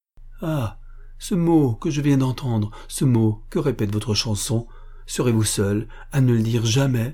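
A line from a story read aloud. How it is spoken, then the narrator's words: Cried out. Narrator (French): s'écria Patricio Bempo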